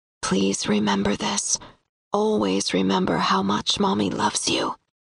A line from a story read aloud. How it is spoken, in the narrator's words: whisper